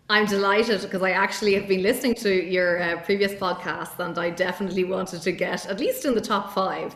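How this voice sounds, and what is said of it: Irish accent. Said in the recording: “all the way from beautiful, maybe gloomy Dublin, Ireland ... anybody could have guessed from hearing your accent where you were from ... interesting and unique accent”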